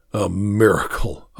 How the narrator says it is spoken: I echo bitterly

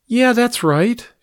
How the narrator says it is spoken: she said brightly

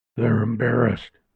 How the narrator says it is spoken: said Red under his breath

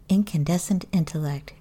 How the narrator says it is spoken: Gaetz replied

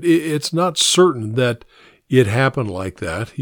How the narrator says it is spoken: said

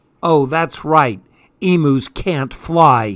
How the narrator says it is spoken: he snarled

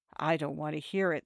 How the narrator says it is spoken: the young lady said in a low voice

